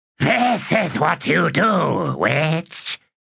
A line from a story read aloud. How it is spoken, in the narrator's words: she said in a rasp